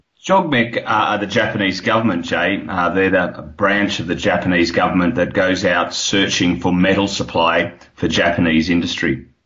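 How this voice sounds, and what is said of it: Australian accent. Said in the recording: “You can hear my accent. It's Australian.”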